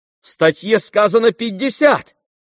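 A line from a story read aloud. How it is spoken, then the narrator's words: Shout. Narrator (Russian): крикнул Коля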